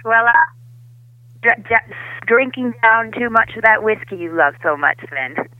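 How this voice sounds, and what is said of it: Put-on Hollywood accent. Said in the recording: “it's my accent. It's my Hollywood accent.”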